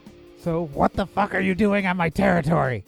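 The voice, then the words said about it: Raised high-pitched character voice. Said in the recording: “doing a voice. Okay. So her voice is up here.”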